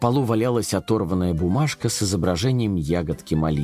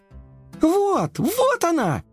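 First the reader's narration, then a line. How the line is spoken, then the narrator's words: Little cat crying out. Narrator (Russian): закричала кошечка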